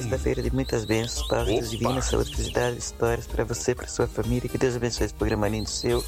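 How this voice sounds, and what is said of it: Very hoarse voice. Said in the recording (Portuguese): “Voz muito rouca.”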